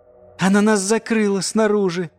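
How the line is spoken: Laughing. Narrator (Russian): засмеялся Диллион

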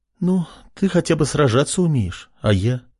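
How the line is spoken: Sighing. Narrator (Russian): Кристина вздохнула

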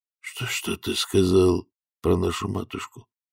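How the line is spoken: Whispered. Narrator (Russian): прошептал он

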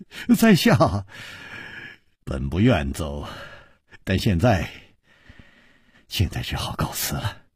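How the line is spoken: Sighing, wry. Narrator (Chinese): 楚留香叹了一口气，苦笑着说

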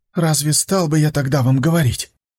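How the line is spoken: Breathless exhale. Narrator (Russian): Он выдохнул

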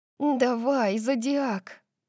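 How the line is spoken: Whispering. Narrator (Russian): прошептала я

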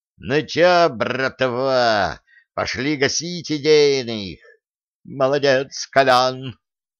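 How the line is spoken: Roared. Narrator (Russian): Кутюрье под веселый звон осколков проревел

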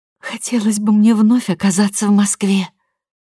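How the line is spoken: Sighing. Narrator (Russian): вздохнула Шура

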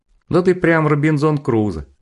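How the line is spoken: Laughing. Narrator (Russian): засмеялся Валера

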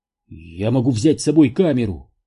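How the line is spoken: Exclamation. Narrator (Russian): воскликнул Данте

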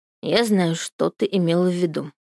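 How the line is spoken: Muttering. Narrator (Russian): бормочу я

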